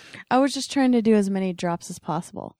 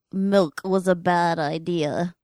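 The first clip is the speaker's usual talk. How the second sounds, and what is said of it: Ron Burgundy impression, middle-aged man. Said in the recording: “my Ron Burgundy impression ... That's spot on ... Sounds very close to your Barack Obama impersonation”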